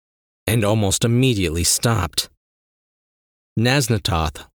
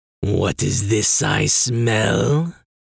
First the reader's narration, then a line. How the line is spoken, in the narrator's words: dragon rumbled